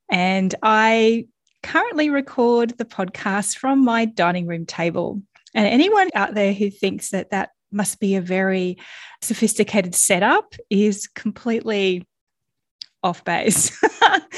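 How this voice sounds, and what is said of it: Australian accent. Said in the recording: “you've probably already worked out from my accent that I am Australian”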